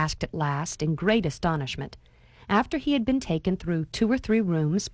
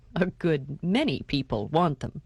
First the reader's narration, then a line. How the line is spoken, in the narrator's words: laughed Mr